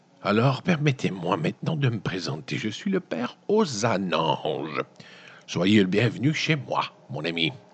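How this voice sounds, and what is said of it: Puts on a character voice. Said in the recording (French): “je vais prendre une voix comme...”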